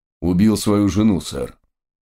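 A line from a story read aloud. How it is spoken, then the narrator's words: Muffled reply. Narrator (Russian): глухо ответил один из констеблей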